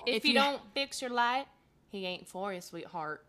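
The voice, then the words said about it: Put-on southern accent. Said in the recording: “Is that your southern accent? ... Does she not sound like Blanche from The Golden Girls? ... It's my favorite impression.”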